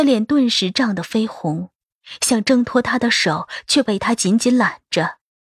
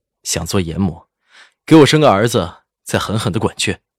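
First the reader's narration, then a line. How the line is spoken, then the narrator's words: Smiling, teasing. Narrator (Chinese): 赵以静…眉眼含笑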